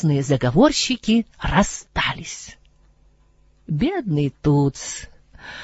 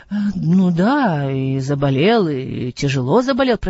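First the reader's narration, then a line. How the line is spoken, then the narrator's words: Strangled wheeze. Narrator (Russian): прохрипел Адам, словно ему сдавило глотку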